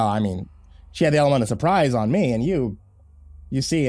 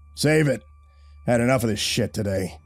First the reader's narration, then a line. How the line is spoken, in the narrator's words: Dalton snarled